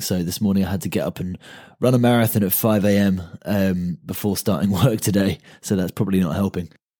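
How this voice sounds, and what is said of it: Slightly hoarse voice. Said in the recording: “You might be able to detect a bit of a hoarseness in my voice today. It's been a few days feeling a little bit rough”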